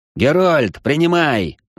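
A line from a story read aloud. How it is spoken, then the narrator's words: Yell. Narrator (Russian): заорал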